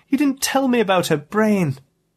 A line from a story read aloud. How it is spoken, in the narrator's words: cried